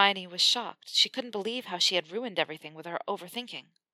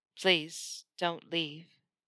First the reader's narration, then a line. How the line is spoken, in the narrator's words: he said quietly, surrendering to her completely